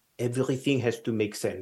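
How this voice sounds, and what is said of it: Put-on Belgian accent. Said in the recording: “this is the best Belgian accent I can do... That's the best I can do... That's pretty good.”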